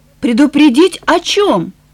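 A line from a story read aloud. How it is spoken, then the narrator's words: Impatient exclamation. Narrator (Russian): У Эленор кончилось терпение, и она воскликнула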